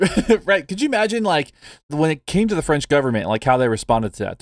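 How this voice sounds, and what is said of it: Usual voice. Nothing is said of it.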